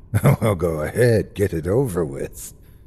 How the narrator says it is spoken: he said with a bitter laugh

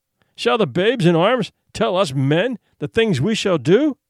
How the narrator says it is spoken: Masuk demanded in a loud voice

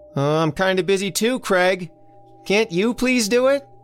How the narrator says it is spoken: hollered back

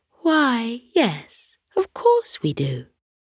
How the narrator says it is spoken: She cooed

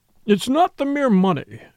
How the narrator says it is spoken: cried

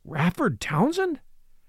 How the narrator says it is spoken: exclaimed Hartley, with a grim tightening of his jaw

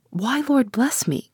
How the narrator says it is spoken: cried the housekeeper

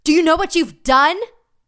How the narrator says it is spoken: Ah Sang yelled

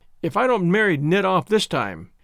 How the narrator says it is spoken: to her husband she said triumphantly

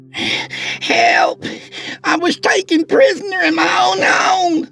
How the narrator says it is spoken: she screamed frantically

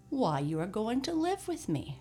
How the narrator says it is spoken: replied Santa Claus

